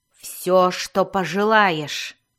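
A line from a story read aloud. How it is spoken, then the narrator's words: Growled. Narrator (Russian): вновь прорычала Мелис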